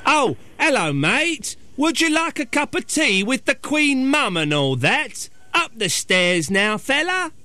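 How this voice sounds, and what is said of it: Put-on English accent, drifting West Country. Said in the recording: “sometimes I go a West Country when I do it ... That sounds a bit more like Barry from Watford.”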